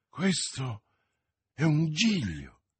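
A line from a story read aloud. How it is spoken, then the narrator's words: Exclaimed. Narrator (Italian): esclamò Felton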